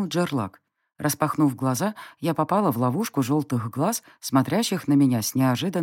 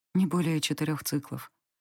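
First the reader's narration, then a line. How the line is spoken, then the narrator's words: Quiet. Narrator (Russian): ответила я тихо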